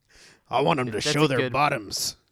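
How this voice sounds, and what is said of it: Imitates another person's voice. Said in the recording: “good impression of my father... Very good impression.”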